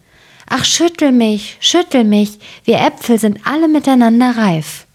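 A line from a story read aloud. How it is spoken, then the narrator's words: Calling out. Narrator (German): rief zu ihm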